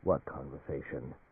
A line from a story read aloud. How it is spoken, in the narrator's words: Coldly, Alan Fane said